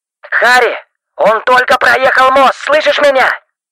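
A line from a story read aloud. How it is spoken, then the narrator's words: Shouting into phone. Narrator (Russian): Стив буквально кричал в трубку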